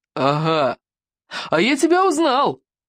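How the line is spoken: Exclamation. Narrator (Russian): воскликнул он

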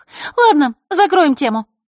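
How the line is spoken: Sharp cutting off. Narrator (Russian): резко оборвала Захарра

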